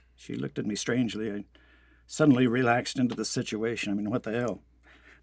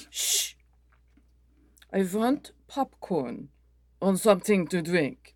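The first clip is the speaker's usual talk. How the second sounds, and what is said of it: Speaks with an amusing accent. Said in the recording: “accent struck me as amusing”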